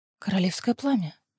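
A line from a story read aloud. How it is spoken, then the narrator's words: Whisper. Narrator (Russian): прошептала Лиссандра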